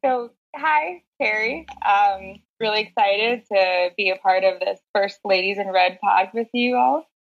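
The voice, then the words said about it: American accent. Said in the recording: “I'm from the U.S., as people can probably tell from the accent ... I'm from Florida originally”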